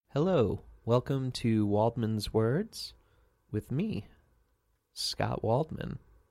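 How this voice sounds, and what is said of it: Semi-good radio announcer voice. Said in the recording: “I just did a semi-good radio voice”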